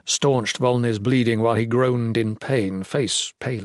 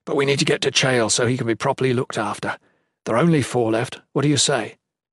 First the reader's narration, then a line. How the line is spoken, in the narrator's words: Jen whispered